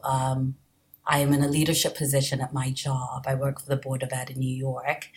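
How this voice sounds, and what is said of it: Non-American hybrid foreign accent. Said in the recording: “your accent is gorgeous, but it's not exactly what I would think of as a New Jersey accent ... it's not a New Jersey accent”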